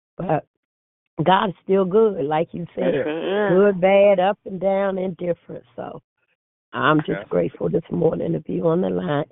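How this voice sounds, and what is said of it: Voice hoarse from a cold. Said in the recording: “excuse my voice ... I caught a cold on top of everything”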